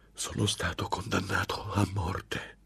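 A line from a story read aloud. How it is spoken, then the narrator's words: Muffled, terrified breath. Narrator (Italian): Fiatò con voce smorzata mentre il sangue gli si coagulava nelle vene alla vista del suo spaventevole interlocutore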